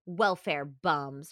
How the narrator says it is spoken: Ray snorted

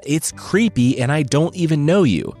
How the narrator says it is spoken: the merchant yelled

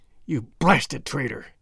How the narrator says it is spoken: hissed McGinty through his closed teeth

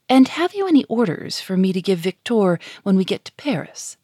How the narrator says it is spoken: said Alfred

